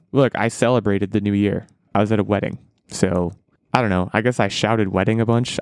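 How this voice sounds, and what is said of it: Hoarse, fading voice. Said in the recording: “most people have probably noticed by now. I don't know if you guys notice. I'm losing my voice. I think the process has begun.”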